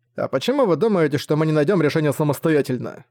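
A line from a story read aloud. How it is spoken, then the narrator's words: Plain question. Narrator (Russian): спросил Зак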